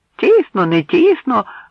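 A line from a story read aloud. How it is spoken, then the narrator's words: Another voice exclaiming. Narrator (Ukrainian): вигукнув ще хтось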